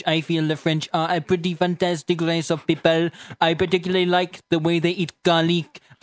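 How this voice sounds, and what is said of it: Put-on French accent drifting toward Dutch. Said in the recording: “Your French accent just kind of veers off into Dutch after a while. ... My French accent is more of like a tour of Europe.”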